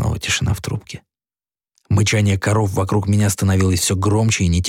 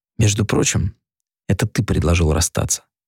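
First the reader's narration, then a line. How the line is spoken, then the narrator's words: Dry, quiet voice. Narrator (Russian): произнесла она сухим, тихим голосом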